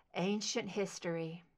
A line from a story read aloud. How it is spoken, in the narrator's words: murmured